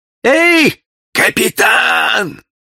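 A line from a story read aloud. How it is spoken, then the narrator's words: Shouting. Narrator (Russian): Звонарь закричал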